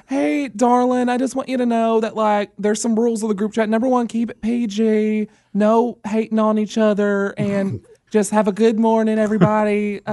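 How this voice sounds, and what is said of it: Put-on Southern mom accent. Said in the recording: “I was just doing my little, like, southern mom accent.”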